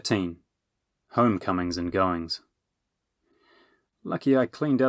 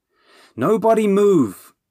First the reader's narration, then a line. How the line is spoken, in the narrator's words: Bernie shouted